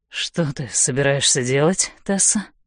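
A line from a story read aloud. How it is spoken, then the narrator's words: Hoarse voice. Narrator (Russian): хрипит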